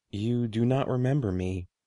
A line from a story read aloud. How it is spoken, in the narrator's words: the man said softly